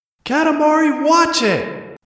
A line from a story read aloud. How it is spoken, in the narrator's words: shouted